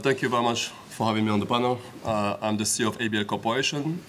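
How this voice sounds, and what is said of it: French accent. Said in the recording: “Sorry about the French accent”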